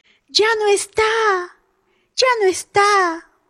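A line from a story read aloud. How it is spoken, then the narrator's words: Yelled, panting heavily. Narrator (Spanish): vociferó, jadeando fuertemente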